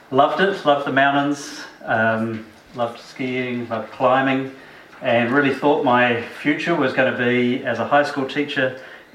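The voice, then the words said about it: New Zealand accent. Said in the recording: “You've got an accent. ... a Kiwi”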